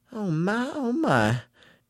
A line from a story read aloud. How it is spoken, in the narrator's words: she began to murmur